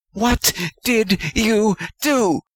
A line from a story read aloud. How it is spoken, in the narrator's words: Pettigrew screeched, punctuating each word with a slap